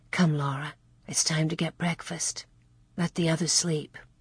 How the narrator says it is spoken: Ma gently shook her awake and whispered

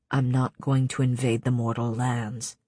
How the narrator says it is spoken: he said too quietly

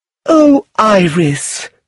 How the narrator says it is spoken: Lucilla cried

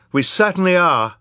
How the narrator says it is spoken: Violet agreed fiercely

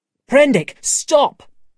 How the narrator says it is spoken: shouted

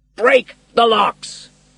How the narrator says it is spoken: shouted the captain

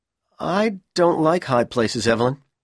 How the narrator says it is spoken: Powell replied miserably

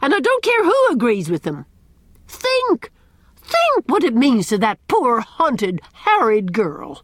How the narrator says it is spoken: cried Miss Cornelia

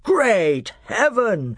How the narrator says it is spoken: exclaimed Miraz

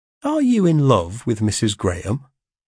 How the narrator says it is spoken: said I, calmly

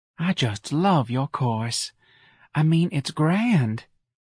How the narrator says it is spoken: Talc and breathed

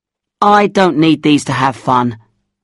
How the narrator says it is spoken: I said

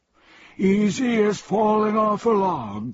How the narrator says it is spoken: cried the Earl

